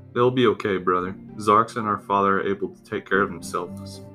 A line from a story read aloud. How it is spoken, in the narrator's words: Korok said